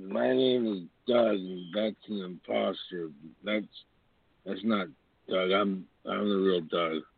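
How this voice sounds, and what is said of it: Poor impersonation of another caller. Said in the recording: “That's a terrible impersonation, by the way. Just so you know that you dropped the ball on that.”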